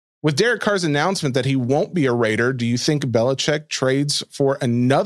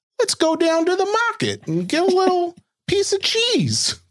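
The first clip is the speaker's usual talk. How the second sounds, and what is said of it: Put-on old-time New York accent. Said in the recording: “What accent is that? ... It's a 1920s New Yorker.”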